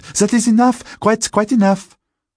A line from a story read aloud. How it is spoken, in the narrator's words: The young women were frightened and exclaimed